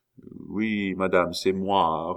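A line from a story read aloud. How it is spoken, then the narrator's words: Old man, humble and sad. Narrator (French): répondit humblement et tristement le vieillard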